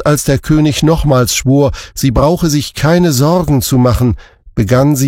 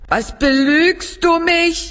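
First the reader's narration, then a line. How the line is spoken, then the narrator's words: Calling out. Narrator (German): rief sie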